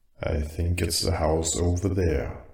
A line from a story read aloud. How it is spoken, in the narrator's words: Dom said quietly but with certainty